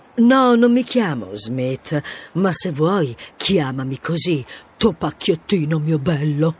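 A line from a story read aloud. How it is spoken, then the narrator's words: Whispered. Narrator (Italian): Io sussurrai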